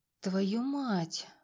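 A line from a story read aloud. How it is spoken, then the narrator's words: Breathless exhale. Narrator (Russian): выдохнула я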